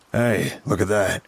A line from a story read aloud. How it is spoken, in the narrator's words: Dad chuckled